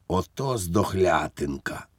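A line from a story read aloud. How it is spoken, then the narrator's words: Whisper. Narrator (Ukrainian): прошепотів фельдфебелів Іванікові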